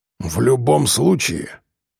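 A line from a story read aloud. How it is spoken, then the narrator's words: Raven's muffled voice. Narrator (Russian): глухо сказал ворон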